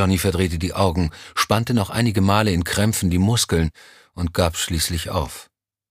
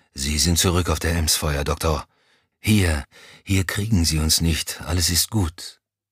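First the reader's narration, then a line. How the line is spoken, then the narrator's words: Murmur. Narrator (German): murmelte er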